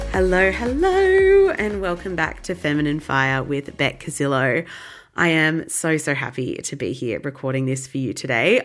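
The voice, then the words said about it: Voice not fully recovered from illness. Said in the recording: “As you might be able to hear in my voice, I have not been 100% in recent weeks, and my voice is still not fully back yet ... I just don't sound like it yet. So you'll have to forgive my voice today.”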